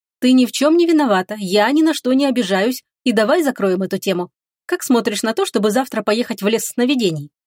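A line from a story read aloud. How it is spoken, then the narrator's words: Abrupt change of tone. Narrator (Russian): резко сменила Агата тему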